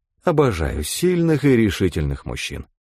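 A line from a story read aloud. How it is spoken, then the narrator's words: Girl's flirtatious purr. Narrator (Russian): промурлыкала девушка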